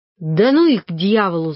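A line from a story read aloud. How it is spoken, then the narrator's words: Angry. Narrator (Russian): злобно сказал Саня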